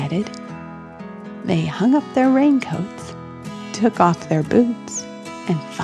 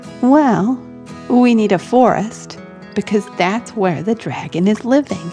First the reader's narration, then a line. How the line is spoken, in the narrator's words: Helen said